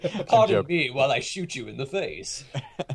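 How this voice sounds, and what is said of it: Poor attempt at British accent. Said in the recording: “that was not my actual British accent... That was not British at all.”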